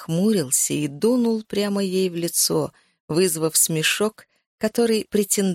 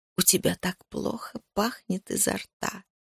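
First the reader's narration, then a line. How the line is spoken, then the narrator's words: Low enchanting whisper. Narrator (Russian): прошептала своим низким, чарующим голосом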